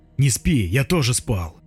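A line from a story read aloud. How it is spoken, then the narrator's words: Calm. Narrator (Russian): он мне говорит спокойно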